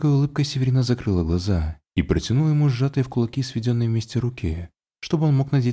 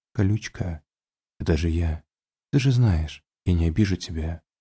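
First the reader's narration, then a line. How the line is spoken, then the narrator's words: Whisper muffled into hair. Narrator (Russian): прошептал ей волосы, прижимаясь губами к ее макушке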